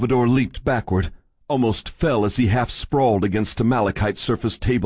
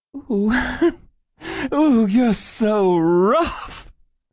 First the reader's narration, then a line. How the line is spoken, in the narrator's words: The thing laughed, laughing